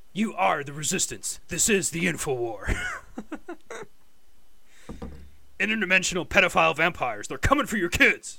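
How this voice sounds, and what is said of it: Imitates another person's voice. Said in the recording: “my Alex Jones impression”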